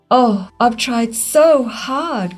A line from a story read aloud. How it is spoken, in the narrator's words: cried the old maple